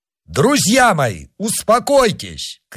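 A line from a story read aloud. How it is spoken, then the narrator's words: Shout. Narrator (Russian): крикнул он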